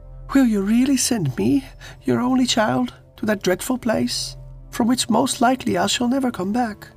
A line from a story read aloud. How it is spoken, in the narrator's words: the princess burst into tears and sobbed out